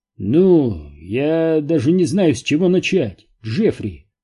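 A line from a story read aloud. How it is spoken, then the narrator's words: Gloomy drawl, bald scientist. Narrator (Russian): уныло протянул лысоголовый ученый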